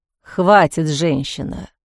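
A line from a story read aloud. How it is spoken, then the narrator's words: Sudden muffled interruption. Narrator (Russian): внезапно глухо прервал Киран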